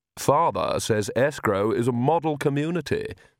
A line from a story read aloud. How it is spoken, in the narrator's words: said Vlad